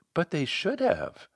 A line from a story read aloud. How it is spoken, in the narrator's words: She said rather meekly